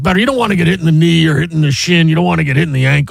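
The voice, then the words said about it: Imitates another person's voice. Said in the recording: “That was my Madden impression. That's a pretty good Madden impression.”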